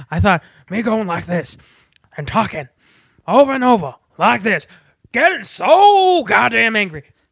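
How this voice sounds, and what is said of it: Imitates another person's voice, angry. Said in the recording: “do an Al Pacino impression ... he is a rabid bulldog on like a choke chain in a junkyard”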